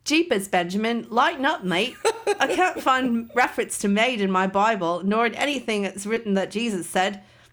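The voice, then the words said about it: Put-on Australian accent. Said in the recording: “it got into my head in an Australian accent”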